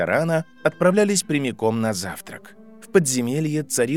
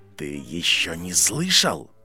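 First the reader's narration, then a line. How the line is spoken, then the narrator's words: Dean's hiss. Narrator (Russian): прошипел декан его факультета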